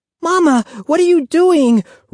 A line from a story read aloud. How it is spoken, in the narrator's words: Ruthie cried